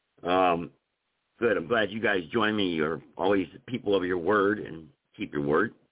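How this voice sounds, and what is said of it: Strained, fading voice. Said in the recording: “I'm losing my voice because I've been arguing all day on the telephone”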